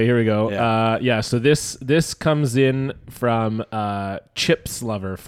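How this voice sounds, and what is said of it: Usual voice. Nothing is said of it.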